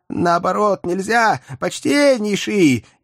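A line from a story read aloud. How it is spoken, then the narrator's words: Nervous cry. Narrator (Russian): нервно вскрикнул кто-то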